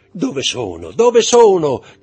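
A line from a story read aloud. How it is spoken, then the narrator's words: Shouting. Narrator (Italian): gridò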